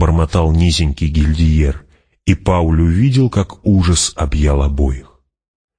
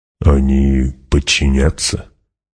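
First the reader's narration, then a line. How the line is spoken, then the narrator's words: Quiet question. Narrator (Russian): негромко спросил Гурни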